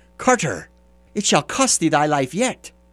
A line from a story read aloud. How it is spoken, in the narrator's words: cried